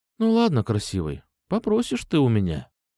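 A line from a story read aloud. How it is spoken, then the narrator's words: Sleepy. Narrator (Russian): сонно сказала она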